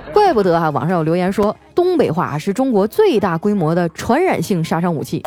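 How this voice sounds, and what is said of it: Strong Northeastern Chinese accent. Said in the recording (Chinese): “张嘴就是一口东北大碴子味儿 ... 你们听我还用东北话在这白话”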